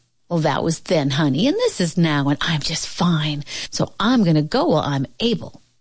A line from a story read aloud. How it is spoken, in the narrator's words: the old woman said firmly